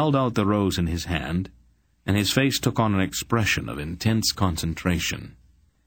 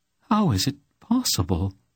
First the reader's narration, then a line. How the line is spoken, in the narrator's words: she asked in an awed voice